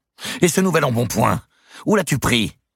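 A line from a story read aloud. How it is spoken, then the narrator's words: Shouting. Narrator (French): cria Dame Eliabelle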